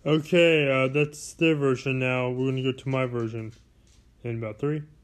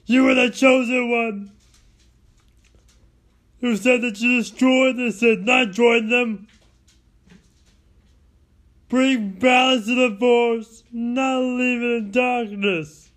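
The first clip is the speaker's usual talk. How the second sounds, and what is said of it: Imitates another person's voice. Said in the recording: “Here's me impersonating them.”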